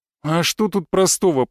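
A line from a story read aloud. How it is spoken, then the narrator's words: Moan. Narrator (Russian): простонал я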